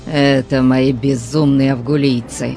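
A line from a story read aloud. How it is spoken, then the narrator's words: Growling. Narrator (Russian): прорычал Конан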